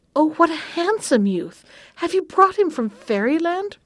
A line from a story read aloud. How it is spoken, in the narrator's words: cried she